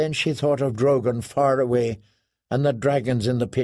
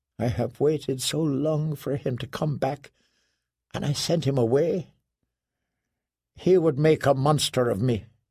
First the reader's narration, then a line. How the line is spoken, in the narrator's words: whispered